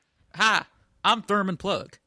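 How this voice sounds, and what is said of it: Terrible put-on southern accent. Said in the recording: “I apologize for the terrible southern accent”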